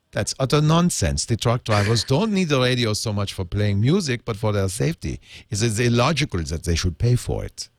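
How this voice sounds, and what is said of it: Put-on Flemish accent. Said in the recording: “it's Flemish. Many people confuse the Flemish accent with Ariana's accent, which is ... Undefinable Eurotrash accent.”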